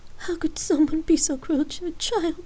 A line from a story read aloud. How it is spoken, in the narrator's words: Jamie finally gasped out